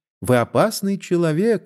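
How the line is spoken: Laughing woman. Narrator (Russian): смеясь сказала Констанция

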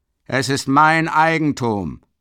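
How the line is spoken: Enraged shouting. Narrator (German): schreit Mikolka mit blutunterlaufenden Augen

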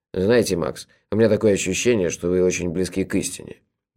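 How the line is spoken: Good-natured grumble. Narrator (Russian): добродушно проворчал трактирщик

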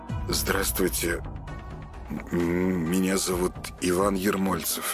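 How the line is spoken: Mumbled. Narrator (Russian): промямлил Ваня

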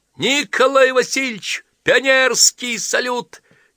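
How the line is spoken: Cheerful shout. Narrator (Russian): весело прокричал Воробей

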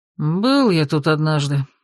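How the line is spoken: Gruff mutter. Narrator (Russian): буркнул

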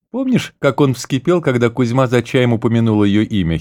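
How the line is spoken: Giggling. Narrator (Russian): хихикнул граф

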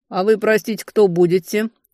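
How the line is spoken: Skeptical snort. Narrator (Russian): хмыкнул капитан

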